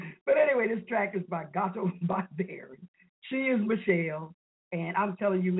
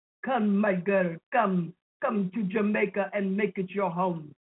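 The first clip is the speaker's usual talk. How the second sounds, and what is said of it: Bad fake Jamaican accent. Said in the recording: “That's the worst Jamaican accent I ever heard.”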